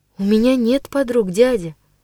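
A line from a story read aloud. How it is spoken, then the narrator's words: Barely audible. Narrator (Russian): чуть слышно произнесла я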